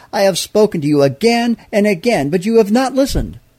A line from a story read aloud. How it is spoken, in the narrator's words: moaned Jeremiah